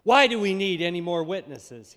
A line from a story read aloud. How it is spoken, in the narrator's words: he asked